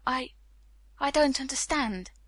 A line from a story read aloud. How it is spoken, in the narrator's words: he murmured